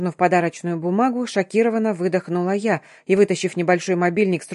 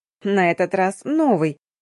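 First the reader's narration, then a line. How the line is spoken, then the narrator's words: Proud, solemn announcement. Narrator (Russian): гордо отозвалась Вика, торжественно сообщила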